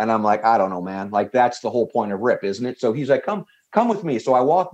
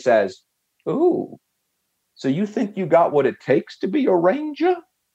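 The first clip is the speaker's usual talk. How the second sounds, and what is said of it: Grating Southern drawl. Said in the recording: “that Southern drawl accent that is just a little bit too grating”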